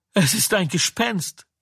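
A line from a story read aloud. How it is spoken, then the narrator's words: Screaming in fear. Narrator (German): sie schrien vor Furcht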